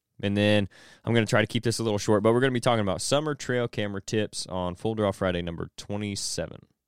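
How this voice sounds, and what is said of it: Strained voice still recovering. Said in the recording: “my voice is just now kind of coming back”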